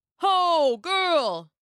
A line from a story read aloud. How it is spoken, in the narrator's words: one shouted